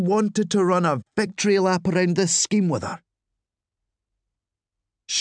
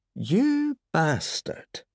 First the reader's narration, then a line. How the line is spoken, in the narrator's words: she said, quite calmly